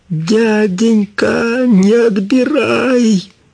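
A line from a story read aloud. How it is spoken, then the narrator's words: Shout. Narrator (Russian): закричала она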